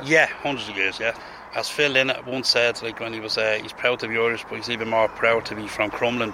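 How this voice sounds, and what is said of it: Traditional Dublin Liberties accent. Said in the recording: “the Dublin accent ... we speak too fast ... that Liberties accent, I mean, that's a, a, a traditional accent”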